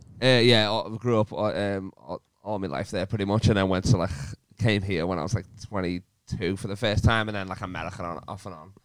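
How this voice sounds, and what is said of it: Strong Liverpool Scouse accent. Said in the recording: “very strong accent ... We've got a few scousers who are listening going, fucking finally, something I can understand.”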